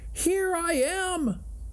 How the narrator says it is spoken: Stuart, from his cramped position inside the rolled-up shade, called back

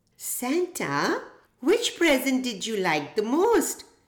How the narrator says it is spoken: Emma soon piped up

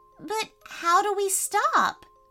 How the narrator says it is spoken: pleaded Isabella as she sneezed again

